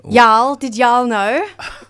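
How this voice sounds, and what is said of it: Put-on American accent. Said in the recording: “She called us guys. That's an American concept. ... I can keep the accent up if you like.”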